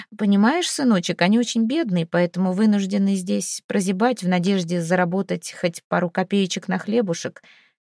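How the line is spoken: Nervous cough, mumbling. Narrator (Russian): Отец нервно закашлялся и промямлил

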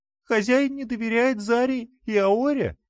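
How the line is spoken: Offended, close to tears. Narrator (Russian): Она обиделась, вновь готовясь разрыдаться

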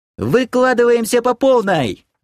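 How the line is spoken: Ringing yell. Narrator (Russian): звонко завопила Кирия

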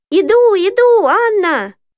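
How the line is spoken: Shout. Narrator (Russian): закричала я

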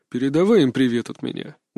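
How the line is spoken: Father, muffled reply. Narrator (Russian): глухо ответил отец

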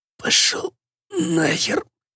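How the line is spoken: Strained wheeze. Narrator (Russian): просипел он с трудом, шевеля губами

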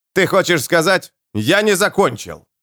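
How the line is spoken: Forceful bark. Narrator (Russian): рявкнул Джоакин с такой силой

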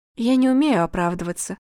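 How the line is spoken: Sad. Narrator (Russian): произнесла Настя грустно

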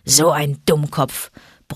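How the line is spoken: Grumbling. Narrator (German): brummte Vater Wolf

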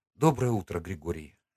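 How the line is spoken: Quiet. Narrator (Russian): сказала она тихо

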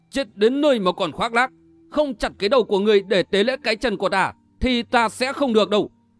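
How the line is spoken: Furious shout. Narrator (Vietnamese): Tiên Nhuệ nộ quát

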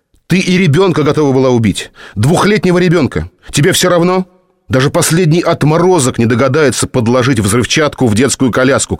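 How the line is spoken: Shouting. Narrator (Russian): кричал

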